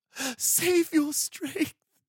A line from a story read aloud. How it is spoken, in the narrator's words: Sindar sobbed